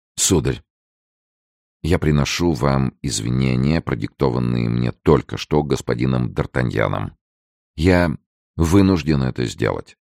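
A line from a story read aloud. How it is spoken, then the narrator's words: Barely audible. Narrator (Russian): еле слышно произнес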